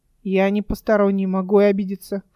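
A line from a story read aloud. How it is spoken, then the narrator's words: Snorting. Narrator (Russian): фыркнул Верден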